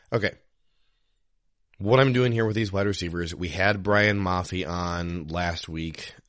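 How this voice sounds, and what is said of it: Hoarse voice from a cold. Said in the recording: “I apologize that my voice sounds like this. I have been trying to get over this cold”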